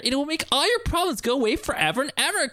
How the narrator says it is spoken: Clokey said in his chipper tone

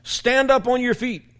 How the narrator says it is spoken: called out

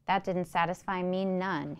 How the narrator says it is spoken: he said

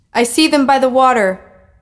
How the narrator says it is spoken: a voice cried across the distance near the wall

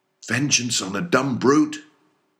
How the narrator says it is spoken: cried Starbuck

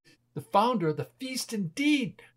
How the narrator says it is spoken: cried Mrs

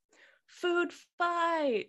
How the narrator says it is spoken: screams the ventriloquist

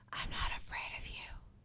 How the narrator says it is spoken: she whispered

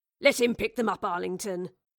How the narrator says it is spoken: Charles grumbled

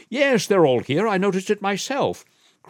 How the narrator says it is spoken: cried the young duke

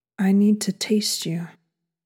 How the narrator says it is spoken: Matt said again

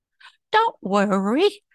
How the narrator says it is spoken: said Whatnot sweetly

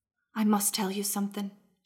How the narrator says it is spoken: she whispered

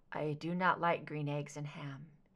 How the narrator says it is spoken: murmured

